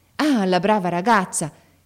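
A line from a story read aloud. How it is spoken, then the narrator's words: Fatherly exclamation. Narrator (Italian): esclamò il padre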